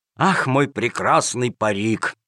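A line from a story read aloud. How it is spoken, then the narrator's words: Sad sigh. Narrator (Russian): вздохнул с грустью Джакомон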